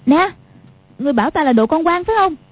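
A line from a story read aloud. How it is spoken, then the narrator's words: Shouting. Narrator (Vietnamese): Quách Phù quát lên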